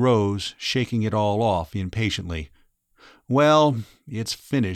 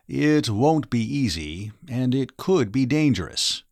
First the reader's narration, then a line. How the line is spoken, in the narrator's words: Raynor 3 said